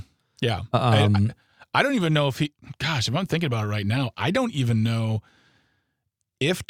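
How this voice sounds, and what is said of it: Usual voice. Nothing is said of it.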